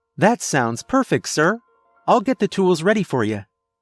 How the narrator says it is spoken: happily said

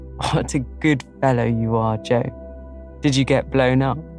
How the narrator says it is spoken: he added, laughing

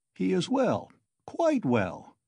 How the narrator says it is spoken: Sosimov cried cheerfully

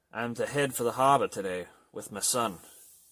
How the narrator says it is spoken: Thomas replied

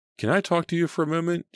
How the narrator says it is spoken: asked in a trembling voice

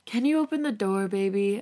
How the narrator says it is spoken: I sigh

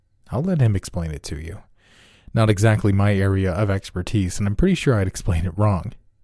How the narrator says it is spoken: he explained in a more giggly voice

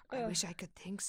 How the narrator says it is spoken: she murmured

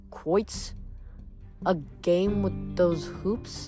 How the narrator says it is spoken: Nico explained, though his voice was brittle

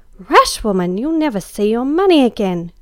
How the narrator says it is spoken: cried, prepared for highway robbery, if not murder

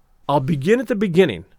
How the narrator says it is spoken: I said

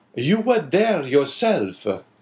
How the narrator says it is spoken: exclaimed the abbé suddenly

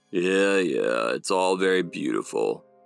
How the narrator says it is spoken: growled Hotel

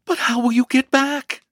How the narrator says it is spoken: in sudden alarm and forgetfulness of her former coolness, she exclaimed

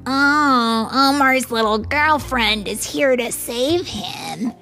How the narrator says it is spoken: Ian sneered

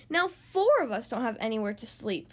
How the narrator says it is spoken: grumbled

